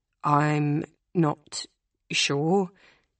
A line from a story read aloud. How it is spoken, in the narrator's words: she says slowly